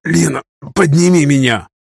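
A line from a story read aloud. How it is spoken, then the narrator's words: Hoarse wheeze. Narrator (Russian): прохрипел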